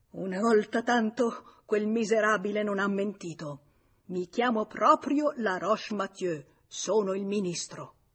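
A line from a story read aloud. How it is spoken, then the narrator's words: Forceful exclamation. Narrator (Italian): L'uomo … esclamò con forza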